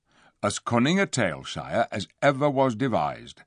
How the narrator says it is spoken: said Poggin

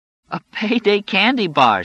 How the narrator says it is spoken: exclaimed

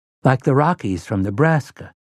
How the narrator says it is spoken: Jake breathed

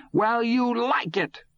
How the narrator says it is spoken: Todd shouted back

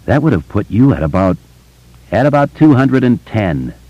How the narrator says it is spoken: Ben said gravely

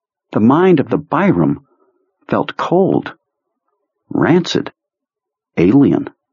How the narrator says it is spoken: he muttered

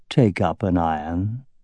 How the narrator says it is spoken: in a conversational tone of voice said

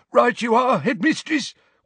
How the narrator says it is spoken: wheezed Filch

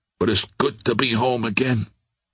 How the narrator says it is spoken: he murmured

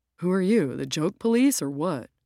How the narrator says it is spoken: Ro grunts

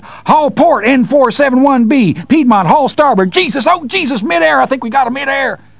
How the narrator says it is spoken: the weird static coming from the radio cleared, and Farmer John's voice screamed

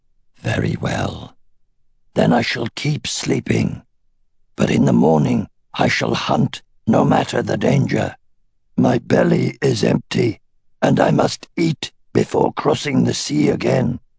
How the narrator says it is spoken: She growled softly

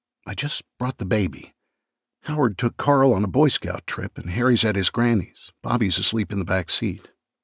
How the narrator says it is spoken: whispered

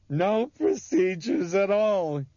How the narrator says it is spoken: he screamed joyfully into their shocked faces

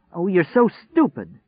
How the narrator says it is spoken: she cried

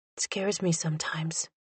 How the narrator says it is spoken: Ashanique whispered

